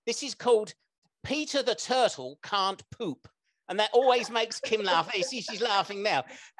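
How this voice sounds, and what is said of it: English accent. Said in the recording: “it's my English accent that makes her laugh”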